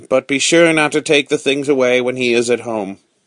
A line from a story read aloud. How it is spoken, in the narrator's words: Manette with a sigh